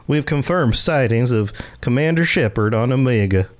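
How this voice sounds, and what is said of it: Syrupy put-on Southern accent. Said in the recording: “I can do Southern. ... This is like very syrupy.”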